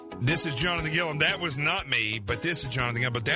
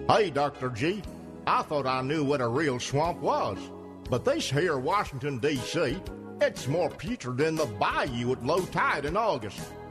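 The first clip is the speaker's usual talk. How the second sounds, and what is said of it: Southern bayou accent. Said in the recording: “that's what I sound like when I go back home to Arkansas ... accent comes right back, although that was a little bit of bayou accent”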